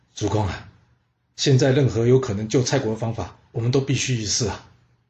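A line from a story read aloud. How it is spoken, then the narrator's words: Sighing. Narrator (Chinese): 公子归生叹了口气，对世子友说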